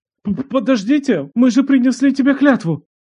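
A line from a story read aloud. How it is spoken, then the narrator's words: Attempted shout. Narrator (Russian): попытался крикнуть другой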